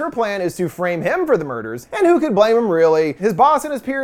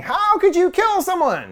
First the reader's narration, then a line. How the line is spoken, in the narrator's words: Kurt falls down in horror, shrieking